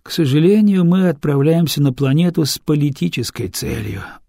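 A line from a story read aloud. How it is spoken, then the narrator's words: Sigh. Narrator (Russian): вздохнул Дартагентур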